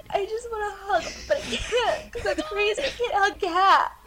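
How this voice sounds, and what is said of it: Emotional, overcome voice. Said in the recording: “Sorry, I'm getting emotional.”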